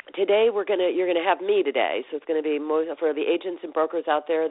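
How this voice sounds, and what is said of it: Sick, under-the-weather voice. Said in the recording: “you can hear in my voice, I'm a little bit under the weather”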